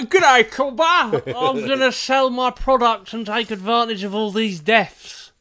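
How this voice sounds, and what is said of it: Put-on accent. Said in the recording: “I don't know what happened with that accent”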